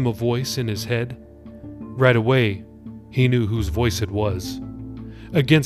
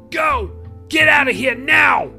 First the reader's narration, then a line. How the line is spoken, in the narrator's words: yelled